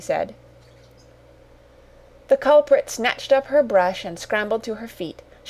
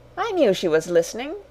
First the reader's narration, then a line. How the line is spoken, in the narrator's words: she said